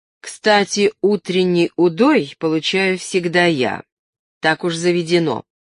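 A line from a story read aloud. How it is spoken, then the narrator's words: Plain. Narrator (Russian): сказала Надежда Спиридоновна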